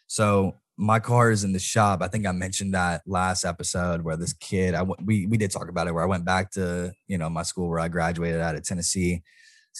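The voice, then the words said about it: Hoarse voice. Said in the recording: “My voice is so hoarse right now... I can't even talk right now.”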